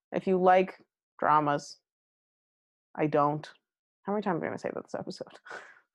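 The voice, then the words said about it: Sleepy, tired voice. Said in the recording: “I'm literally falling asleep. You can probably tell in my voice.”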